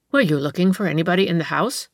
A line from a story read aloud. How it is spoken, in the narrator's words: said the woman, glancing sharply at the stranger